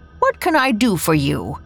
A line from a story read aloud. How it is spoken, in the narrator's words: asked cheerfully